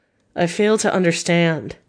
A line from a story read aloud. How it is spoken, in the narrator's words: said Harker wearily